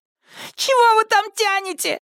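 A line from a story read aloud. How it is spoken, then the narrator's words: Hysterical yelling. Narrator (Russian): истерично завопил Чак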